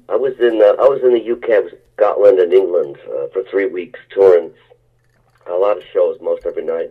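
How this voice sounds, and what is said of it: Worn-out, ragged voice. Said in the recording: “my voice is a little worn out from the last two shows. Was pretty ragged”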